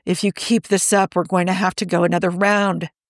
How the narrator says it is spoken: Steve groans

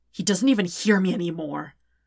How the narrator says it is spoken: Zuko says harshly

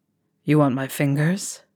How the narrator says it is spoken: asks gruffly

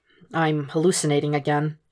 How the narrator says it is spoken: confesses quietly

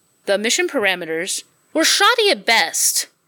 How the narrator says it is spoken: Jim yelled

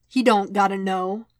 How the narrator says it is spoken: Wade replied

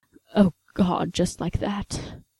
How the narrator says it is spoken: Sherlock managed

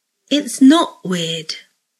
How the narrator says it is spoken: Draco says slowly, unsure of what to think of this exchange

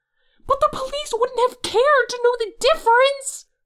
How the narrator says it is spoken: Hoseok screams back

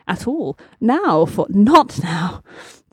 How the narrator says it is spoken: the doctor said breathlessly

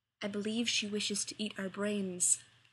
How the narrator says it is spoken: Taylor whispers to John

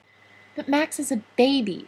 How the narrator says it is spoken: she wailed

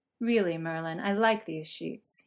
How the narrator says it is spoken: chided, letting out a soft laugh

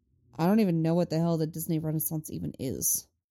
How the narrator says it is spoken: he grumbles

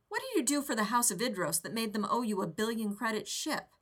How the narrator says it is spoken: Rodney said

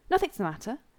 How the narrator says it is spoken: Rodney answered quickly, looking around nervously

